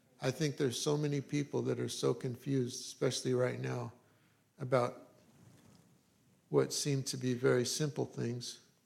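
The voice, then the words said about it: Slightly raspy voice. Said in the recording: “My voice is a little raspy. ... We got a little bit of an allergy thing going on”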